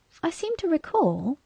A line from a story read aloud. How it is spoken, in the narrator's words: Rose Thinker chirped, somewhat unkindly,